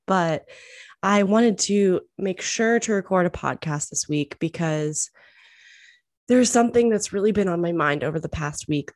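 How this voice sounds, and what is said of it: Congested voice from a cold. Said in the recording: “I've got a bit of a cold going on today, so I sound a little bit crazy”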